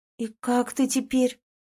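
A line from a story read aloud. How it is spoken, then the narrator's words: Upset exhale. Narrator (Russian): расстроенно выдохнула Ленка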